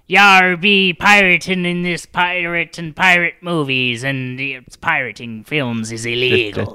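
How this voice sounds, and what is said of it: Put-on pirate accent. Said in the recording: “take us out with your best pirate accent”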